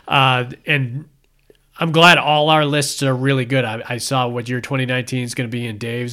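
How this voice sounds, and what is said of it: Strained, fading hoarse voice. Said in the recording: “My voice is going.”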